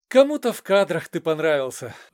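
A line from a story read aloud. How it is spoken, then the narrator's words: Sighing. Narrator (Russian): вздохнул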